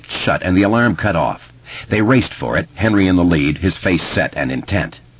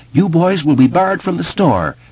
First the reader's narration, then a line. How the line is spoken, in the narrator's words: the clerk yelled after him